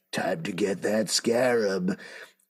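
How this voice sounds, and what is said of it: Put-on villain character voice. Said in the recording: “I'm the Reach ... this accent, this voice is a little bit of a reach”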